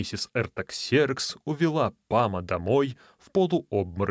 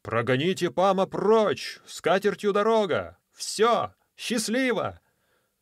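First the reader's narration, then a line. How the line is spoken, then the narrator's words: Crowd talking and shouting. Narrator (Russian): И все говорили и кричали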